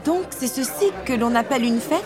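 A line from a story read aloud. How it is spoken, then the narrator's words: Plain. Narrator (French): dit Elsa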